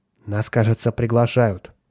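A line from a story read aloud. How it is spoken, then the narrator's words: Muttered. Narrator (Russian): пробормотал капитан Фьючер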